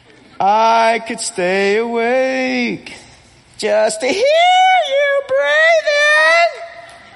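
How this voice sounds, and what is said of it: Imitates a rock singer's singing voice. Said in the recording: “best Steven Tyler impersonation I can do”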